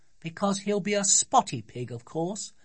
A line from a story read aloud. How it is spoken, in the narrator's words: said Sophie, looking scornfully at her brothers